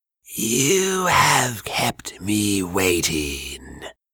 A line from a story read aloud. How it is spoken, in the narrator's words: Bantu hissed in displeasure